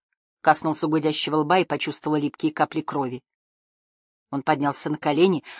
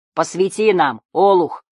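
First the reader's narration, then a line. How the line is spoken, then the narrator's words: Roaring voice. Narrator (Russian): проревел голос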